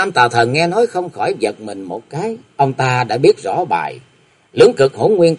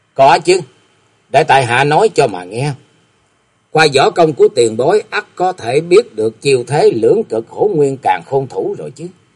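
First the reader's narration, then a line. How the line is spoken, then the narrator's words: Laughing loudly, replying. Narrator (Vietnamese): Kế Quan bỗng nhiên cất tiếng cười to rồi đáp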